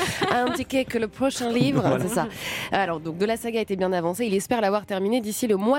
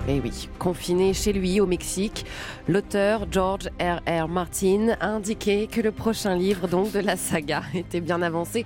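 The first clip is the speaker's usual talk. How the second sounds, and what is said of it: French speech with English accent. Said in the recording (French): “Votre accent anglais était tellement bon que vous l'avez continué sur la phrase en français.”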